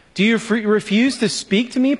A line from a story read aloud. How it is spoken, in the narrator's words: Pilate said